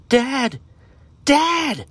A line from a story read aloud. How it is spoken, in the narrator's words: Aiden screamed